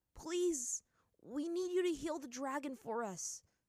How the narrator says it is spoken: Aang pleaded

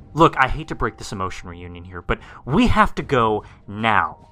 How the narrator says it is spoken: I yelled out

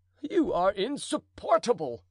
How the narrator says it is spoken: cried the duke

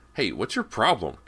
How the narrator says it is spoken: Cody called sharply

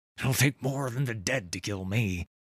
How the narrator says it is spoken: he grunted

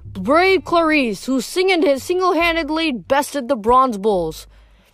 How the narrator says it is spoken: Tantalus exclaimed

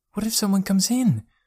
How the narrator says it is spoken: asked Joe nervously

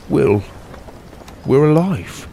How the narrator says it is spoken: he said softly

